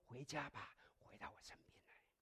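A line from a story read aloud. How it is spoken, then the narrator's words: Soft. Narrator (Chinese): 他在轻声的对你说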